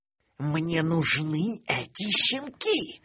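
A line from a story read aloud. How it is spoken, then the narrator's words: Hiss. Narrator (Russian): прошипела Стервелла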